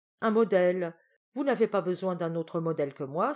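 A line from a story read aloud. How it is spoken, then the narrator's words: Exclamation. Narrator (French): s'écria Jacobea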